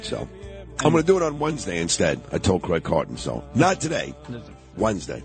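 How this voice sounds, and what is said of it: Voice in poor condition. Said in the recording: “my voice isn't good”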